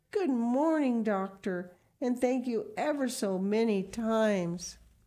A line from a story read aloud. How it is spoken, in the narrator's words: she exclaimed in the joy of her heart